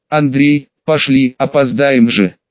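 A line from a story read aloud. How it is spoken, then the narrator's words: Stern. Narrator (Russian): мать … уже строго сказала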